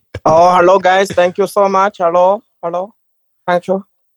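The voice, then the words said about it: Put-on Indian accent. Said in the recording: “I opted for the Indian accent. I thought it would be better.”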